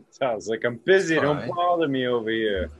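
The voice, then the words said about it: Put-on New York accent. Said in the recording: “New York accent”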